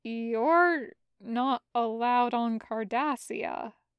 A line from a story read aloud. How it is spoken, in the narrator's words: Julian said